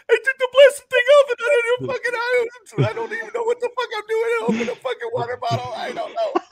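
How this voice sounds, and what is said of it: Imitates another person's voice. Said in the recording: “Great impersonation of him.”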